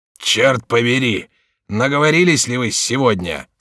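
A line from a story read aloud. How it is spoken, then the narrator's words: Rough voice. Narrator (Russian): сказал грубым голосом вошедший конетабль Монмаранси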